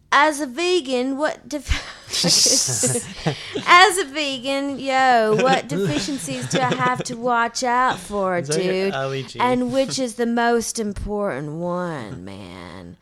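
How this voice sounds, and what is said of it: Attempted surfer accent drifting Cockney. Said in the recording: “read this in a surfer dude's accent, man? ... It started British, and then it went to Cockney.”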